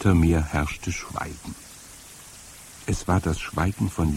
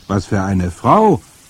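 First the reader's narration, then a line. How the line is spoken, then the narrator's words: Called back. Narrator (German): rief meine Großmutter zurück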